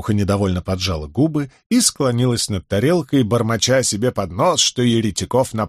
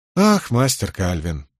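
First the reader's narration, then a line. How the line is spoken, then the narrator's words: Sighing. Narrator (Russian): вздохнул Кензи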